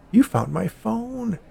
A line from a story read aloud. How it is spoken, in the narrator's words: the old woman exclaimed